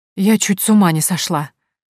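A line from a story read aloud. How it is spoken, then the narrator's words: Breathless exhale. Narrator (Russian): выдохнула Дора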